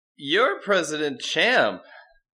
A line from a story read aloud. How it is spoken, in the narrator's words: Tim said dreamily, chuckling to himself